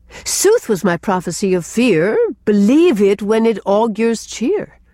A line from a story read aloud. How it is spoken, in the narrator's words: quoted Gertrude, almost gaily